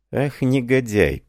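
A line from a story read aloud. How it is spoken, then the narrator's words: Muttered. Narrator (Russian): пробормотал он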